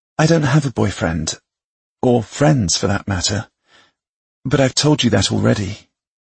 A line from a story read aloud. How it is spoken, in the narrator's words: she said sadly